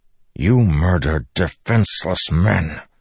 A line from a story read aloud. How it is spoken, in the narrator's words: Dalinar said through gritted teeth